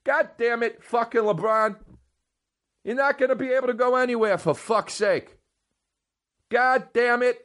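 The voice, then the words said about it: Put-on New York accent, shouting. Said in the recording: “I have a New York accent.”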